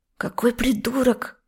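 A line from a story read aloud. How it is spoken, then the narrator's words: Angry hiss, young woman. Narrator (Russian): зло шипела красавица-блондинка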